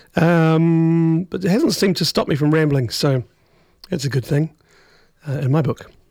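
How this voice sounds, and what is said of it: Worn-out, damaged voice. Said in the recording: “my voice is poked”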